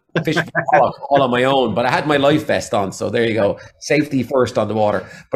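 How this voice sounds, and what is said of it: Irish accent, mixed regional. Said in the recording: “I used to have a flat Waterford accent ... I made a conscious decision when I moved to Galway to lose my Waterford accent ... a mixture of accents. So there's still Waterford in there ... some Galway in there and some Dublin in there as well”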